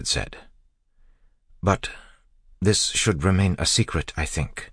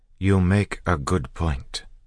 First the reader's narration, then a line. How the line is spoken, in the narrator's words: Sazed said slowly